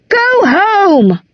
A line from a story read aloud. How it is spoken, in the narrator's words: someone in the crowd shouted